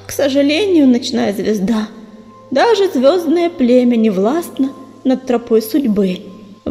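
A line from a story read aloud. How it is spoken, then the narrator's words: Sighing cat. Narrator (Russian): вздохнула кошка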